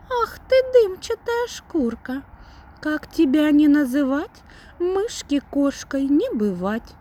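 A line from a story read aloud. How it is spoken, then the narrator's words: Little mouse speaking. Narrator (Russian): говорит мышонок Мурке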